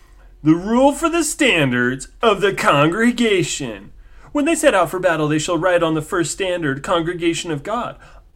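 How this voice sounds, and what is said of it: MatPat impression. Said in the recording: “my best MatPat impersonation”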